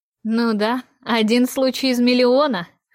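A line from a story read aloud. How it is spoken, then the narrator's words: Skeptical snort. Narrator (Russian): хмыкнул Монтей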